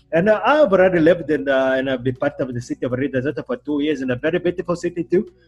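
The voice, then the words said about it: Put-on Indian accent. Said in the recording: “a very good Indian accent”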